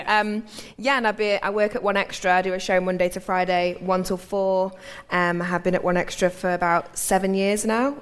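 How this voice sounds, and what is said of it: Manchester English accent. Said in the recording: “I'm originally from Manchester, which is probably why I've got a funny accent”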